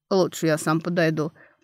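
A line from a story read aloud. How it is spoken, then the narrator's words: Werewolf offering. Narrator (Russian): предложил оборотень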